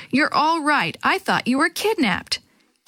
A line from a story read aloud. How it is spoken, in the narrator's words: Dee Dee exclaimed